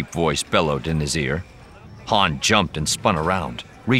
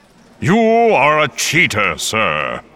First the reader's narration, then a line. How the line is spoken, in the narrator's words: the voice bellowed again